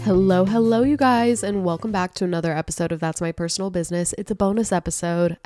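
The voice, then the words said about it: Sick, congested voice. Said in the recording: “you might be able to tell from my voice. I am so sick ... it always turns into a sinus infection”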